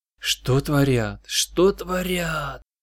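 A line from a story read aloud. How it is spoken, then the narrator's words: Delighted soldier's whisper. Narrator (Russian): восторженно прошептал один из солдат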